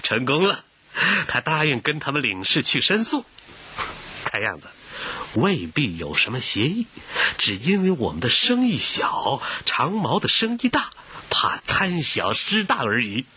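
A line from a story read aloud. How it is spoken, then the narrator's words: Smiling. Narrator (Chinese): 古英春含笑，向胡雪岩说道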